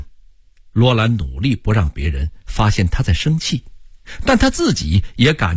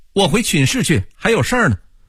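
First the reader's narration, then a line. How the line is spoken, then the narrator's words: Said while running. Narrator (Chinese): 他一边跑一边说道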